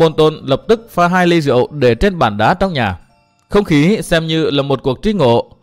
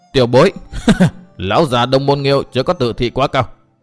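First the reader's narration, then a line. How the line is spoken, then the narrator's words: Loud laughing speech. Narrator (Vietnamese): Độc Trung Chi Độc cười to nói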